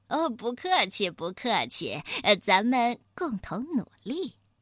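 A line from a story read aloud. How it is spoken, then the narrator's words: Smiling. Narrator (Chinese): 星星老二笑着说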